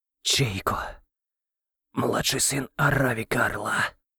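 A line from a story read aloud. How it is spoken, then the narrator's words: Hoarse. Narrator (Russian): хрипло ответил тот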